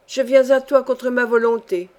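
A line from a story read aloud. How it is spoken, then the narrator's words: Firm voice. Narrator (French): dit-elle d'une voix ferme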